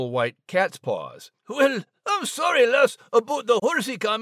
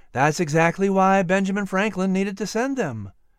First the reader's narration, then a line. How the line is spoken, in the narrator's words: Clarie answered calmly